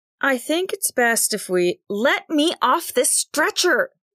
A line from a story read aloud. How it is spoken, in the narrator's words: Nix shouted, or hoarsely called in a higher pitch